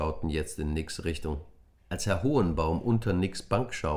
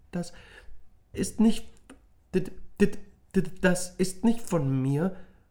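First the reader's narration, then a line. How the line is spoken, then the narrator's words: Embarrassed stammering. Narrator (German): Nick wurde rot im Gesicht und stammelte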